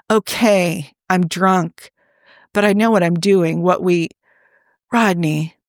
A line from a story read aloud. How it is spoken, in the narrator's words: he added in a helpless little voice